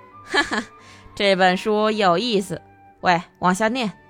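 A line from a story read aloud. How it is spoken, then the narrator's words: Laughing. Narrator (Chinese): 迷婷笑起来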